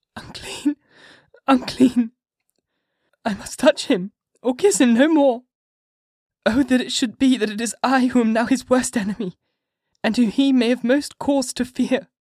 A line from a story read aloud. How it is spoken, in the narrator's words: with a low wail, and whispered, amidst choking sobs